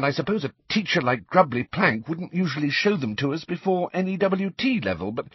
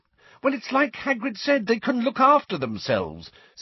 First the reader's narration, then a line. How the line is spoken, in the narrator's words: said Hermione impatiently